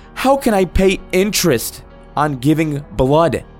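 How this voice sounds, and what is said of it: Raised, angry voice. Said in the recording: “I shot back, raising my voice.”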